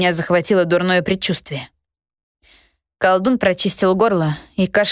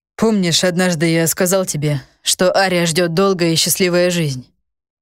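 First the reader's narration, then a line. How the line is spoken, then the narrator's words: Heavy sigh. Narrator (Russian): Захар тяжело вздохнул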